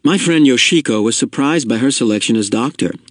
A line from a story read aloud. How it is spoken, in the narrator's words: father said